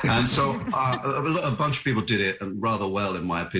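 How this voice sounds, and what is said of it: Usual voice. Nothing is said of it.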